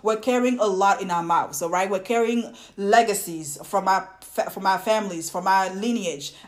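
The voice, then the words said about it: Thick foreign accent. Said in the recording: “stop making fun of our thick accent”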